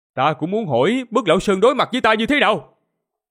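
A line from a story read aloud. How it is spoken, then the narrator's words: Loud bark. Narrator (Vietnamese): quát lớn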